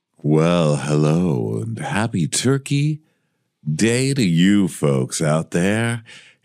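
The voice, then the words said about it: Soothing, exaggerated sexy voice. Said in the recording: “the soothing sounds of... my sexy, sexy voice”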